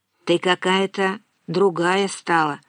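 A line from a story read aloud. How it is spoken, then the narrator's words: Plain, after a pause. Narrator (Russian): сказал наконец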